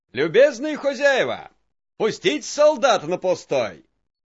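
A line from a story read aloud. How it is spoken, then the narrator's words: Shouting. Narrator (Russian): крикнул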